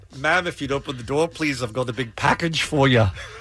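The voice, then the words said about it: Put-on accent. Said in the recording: “Let me hear that in an accent.”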